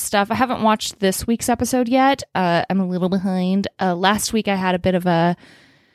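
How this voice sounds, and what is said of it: Slightly raspy voice. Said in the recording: “you can probably tell I'm still like a little raspy”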